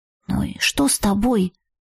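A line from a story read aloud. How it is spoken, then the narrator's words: Quiet question. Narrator (Russian): тихо спросила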